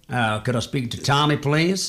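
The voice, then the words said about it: Put-on American accent. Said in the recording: “this voice on the other end ... it's this American accent going”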